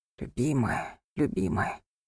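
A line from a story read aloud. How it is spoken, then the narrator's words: Whispering. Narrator (Russian): шептал он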